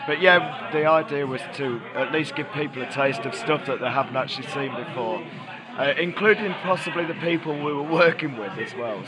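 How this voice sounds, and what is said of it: Hoarse, nearly lost voice. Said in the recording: “I'm afraid I've lost my voice”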